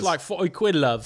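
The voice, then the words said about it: Put-on British accent. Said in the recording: “I thought I did a pretty good accent there.”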